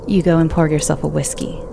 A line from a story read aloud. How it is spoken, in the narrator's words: she said